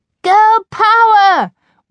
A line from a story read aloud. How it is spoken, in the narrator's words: we all screeched as the song ended